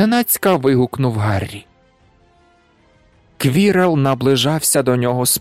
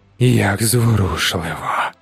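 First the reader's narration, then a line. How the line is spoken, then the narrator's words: Hissed. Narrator (Ukrainian): зашипіло воно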